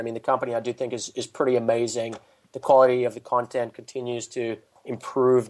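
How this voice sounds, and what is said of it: South African accent. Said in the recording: “trying to place your accent ... You're from South Africa”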